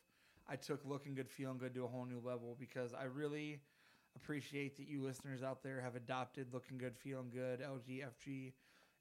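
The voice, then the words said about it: Sick, partly lost voice. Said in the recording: “I sound a little sick. I am sick. My voice is a little gone”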